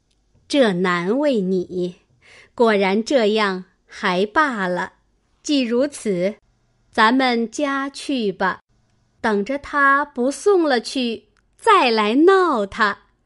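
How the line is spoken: Laughing. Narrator (Chinese): 李纨……笑道

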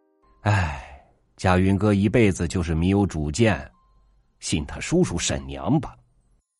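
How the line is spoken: Sighing. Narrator (Chinese): 寨上人叹气

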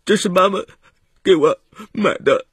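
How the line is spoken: Choked sobbing. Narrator (Chinese): 哽咽着说

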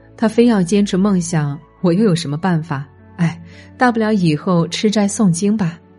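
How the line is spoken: Man speaking with a laugh. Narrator (Chinese): 她老公笑着说

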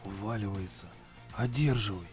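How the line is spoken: Whisper. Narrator (Russian): шепнул Ильин

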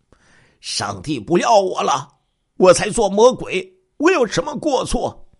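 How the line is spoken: Crazed roaring. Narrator (Chinese): 李小平疯子一样的咆哮

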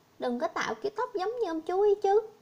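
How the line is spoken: Smiling. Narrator (Vietnamese): May ... mỉm cười

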